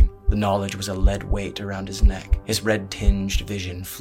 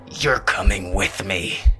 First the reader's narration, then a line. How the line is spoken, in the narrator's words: the Reaper snarled